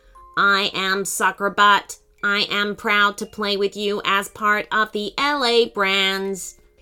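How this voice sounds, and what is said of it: Flat electronic robot voice. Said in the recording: “in a flat electronic voice”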